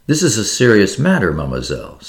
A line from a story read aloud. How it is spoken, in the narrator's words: said the detective